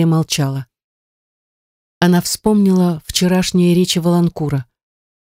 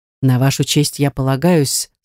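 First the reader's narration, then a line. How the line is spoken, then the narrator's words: Plain. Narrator (Russian): сказал граф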